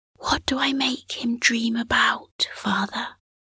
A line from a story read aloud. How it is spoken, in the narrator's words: Cosmo nodded proudly and asked in a hushed voice